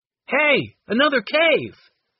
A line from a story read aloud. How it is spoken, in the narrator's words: Henry yelled back to his brother and sisters